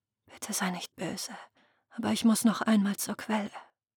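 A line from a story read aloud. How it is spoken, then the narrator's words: Whisper. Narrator (German): flüsterte sie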